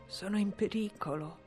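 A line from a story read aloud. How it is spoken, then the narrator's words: Murmured. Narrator (Italian): mormorò Mason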